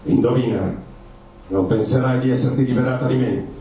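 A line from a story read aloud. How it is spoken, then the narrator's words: Menacing man's voice. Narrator (Italian): disse l'uomo con voce minacciosa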